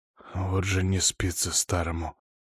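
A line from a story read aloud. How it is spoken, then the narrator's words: Quiet mutter to self. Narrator (Russian): очень тихо себе под нос произнес князь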